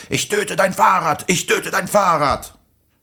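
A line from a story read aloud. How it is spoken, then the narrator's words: Screaming man. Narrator (German): Der Typ mit der Luftpumpe schrie zur gleichen Zeit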